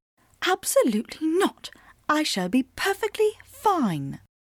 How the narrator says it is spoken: I whispered back, perhaps more fiercely than was necessary

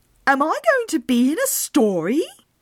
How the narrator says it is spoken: exclaimed Tobias Leander

